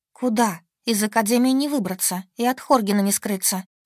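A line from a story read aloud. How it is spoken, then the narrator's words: Sighing. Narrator (Russian): Вздохнула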